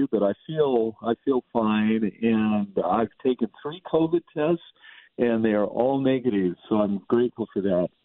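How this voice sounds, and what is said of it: Voice affected by a cold. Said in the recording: “I've got a common cold, and so my voice may sound a little bit different than previous times”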